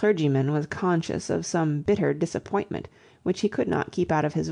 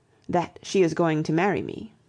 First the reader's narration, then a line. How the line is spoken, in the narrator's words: said Cecil stiffly